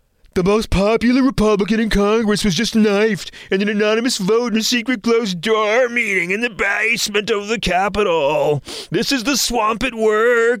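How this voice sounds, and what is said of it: Imitates another person's voice. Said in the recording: “I'm going to try to get the voice right ... I, have been working on my impression of him ... He's actually hard to get accurate, so I've spent a couple of weeks to get the subtleties”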